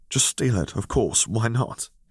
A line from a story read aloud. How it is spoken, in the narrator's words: he sighed, tired exasperation thick in the air